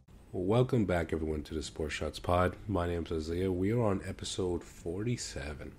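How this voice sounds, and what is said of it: Sick, under-the-weather voice. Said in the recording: “if you can't hear it in my voice, I'm a little bit under the weather”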